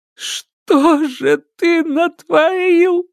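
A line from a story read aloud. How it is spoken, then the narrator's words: Sobbing. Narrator (Russian): всхлипнул Федор Романович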